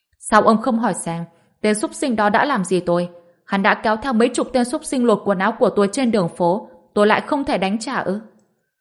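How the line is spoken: Loud. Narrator (Vietnamese): Lộ Tinh lớn tiếng nói

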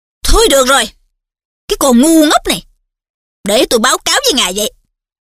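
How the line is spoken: Scolding shout. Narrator (Vietnamese): Mụ Umbridge quát nạt

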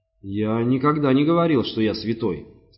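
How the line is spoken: Plain. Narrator (Russian): сказал он

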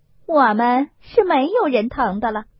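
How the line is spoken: Laughing. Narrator (Chinese): 凤姐儿笑道

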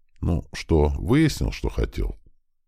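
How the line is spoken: Calm even question. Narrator (Russian): Спокойным ровным тоном поинтересовалась она у мужа

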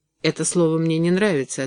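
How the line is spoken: Cold reply. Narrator (Russian): ответил он холодно

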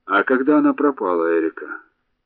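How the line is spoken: Plain question. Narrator (Russian): спросил

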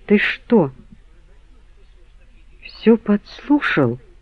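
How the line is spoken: Quiet question. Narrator (Russian): тихо спросила Анжелика

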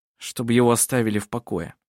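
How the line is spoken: Gloomy reply. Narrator (Russian): мрачно ответил Коль

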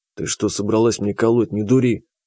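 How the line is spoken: Quiet. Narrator (Russian): Так же тихо сказал я

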